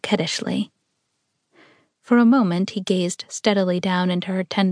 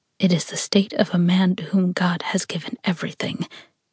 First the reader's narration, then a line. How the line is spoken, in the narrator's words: he said in a thankful whisper